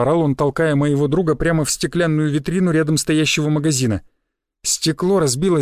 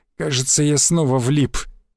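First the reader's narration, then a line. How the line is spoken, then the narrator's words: Moan. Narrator (Russian): простонал он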